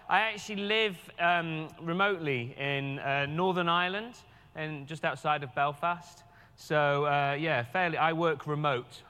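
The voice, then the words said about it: Northern Irish English accent. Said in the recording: “as you can tell from my accent, I'm a local guy... my English accent doesn't work well with captioning”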